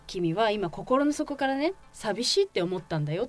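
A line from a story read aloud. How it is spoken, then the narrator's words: Plain. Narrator (Japanese): って言って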